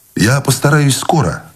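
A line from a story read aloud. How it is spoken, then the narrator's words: Cheerful. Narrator (Russian): бодро сказал Войтик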